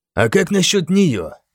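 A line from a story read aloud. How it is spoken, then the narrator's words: Quiet question. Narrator (Russian): тихо поинтересовался Финан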